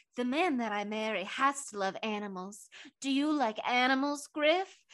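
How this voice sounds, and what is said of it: Put-on character voice. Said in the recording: “doing my Elaine voice.... I'll slip into it now.”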